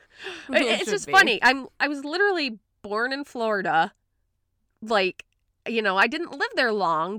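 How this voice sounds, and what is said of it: Midwestern accent with drawn-out vowels. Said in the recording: “It's almost like I have a Midwestern / Boston accent. ... You do.”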